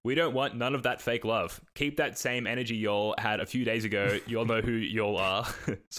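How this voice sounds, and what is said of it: Australian accent. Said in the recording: “I'm butchering that with my Australian accent.”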